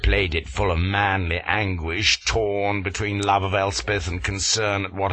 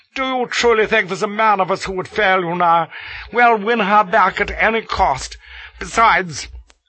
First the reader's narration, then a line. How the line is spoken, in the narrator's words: with tears in his eyes and cried